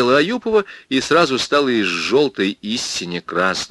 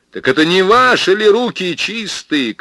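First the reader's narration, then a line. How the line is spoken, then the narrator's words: Shout. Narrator (Russian): крикнул я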